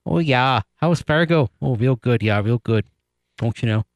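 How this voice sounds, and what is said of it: Put-on Fargo North Dakota accent. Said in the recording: “You gotta do the accent, right? Because North Dakota State's in Fargo. ... Was that your accent?”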